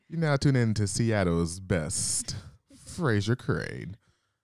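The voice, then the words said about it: Radio announcer voice. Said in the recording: “radio voice. You like my radio voice? ... I sound like a Frasier.”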